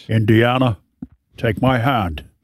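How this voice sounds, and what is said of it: Imitates a Scottish accent. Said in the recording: “I'm just going all Sean Connery ... my Scotland accent”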